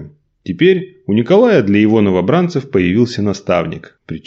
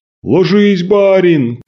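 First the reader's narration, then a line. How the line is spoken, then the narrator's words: Shout. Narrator (Russian): крикнул Антип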